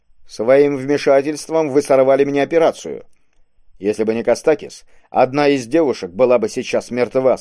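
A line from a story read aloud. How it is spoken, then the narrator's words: Plain. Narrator (Russian): сказал Кабонга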